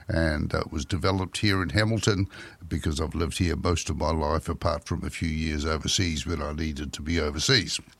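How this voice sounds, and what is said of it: New Zealand accent. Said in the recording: “that's my regular New Zealand voice, and it's the only one I have”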